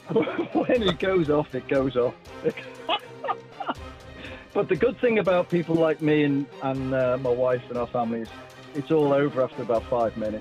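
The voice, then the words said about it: Slight Liverpudlian accent. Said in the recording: “you've got a bit of a Liverpudlian accent”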